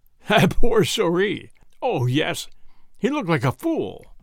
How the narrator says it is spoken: Madame Lulay was almost in spasms of laughter

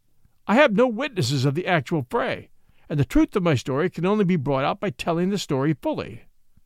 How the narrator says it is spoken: Watson pleaded

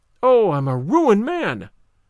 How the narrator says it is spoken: the wagoner became aware of it, he cried out again

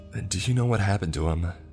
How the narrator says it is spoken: Sally asked frantically

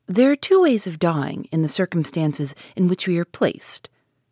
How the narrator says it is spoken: he said calmly

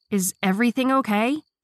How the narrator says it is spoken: Shannon yelled

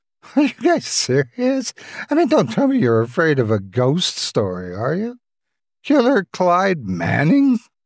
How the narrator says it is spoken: She chuckled in sarcasm

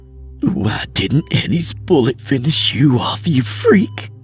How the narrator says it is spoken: she screamed through her choked sobs

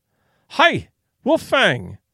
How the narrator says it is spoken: cried

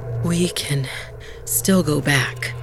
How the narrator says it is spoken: Bala panted

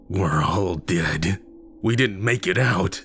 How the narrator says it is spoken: he cackled

